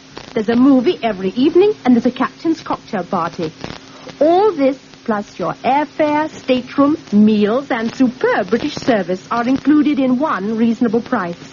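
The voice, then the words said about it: Elegant British accent. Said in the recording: “Oh, what an elegant accent. Very elegant.”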